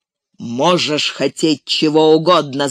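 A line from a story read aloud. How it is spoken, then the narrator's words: Growling. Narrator (Russian): зарычал прежний голос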